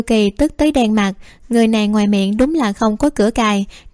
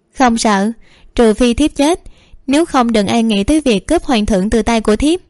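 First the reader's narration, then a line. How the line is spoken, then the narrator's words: Smiling, tender. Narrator (Vietnamese): Tự Cảm ... mỉm cười nói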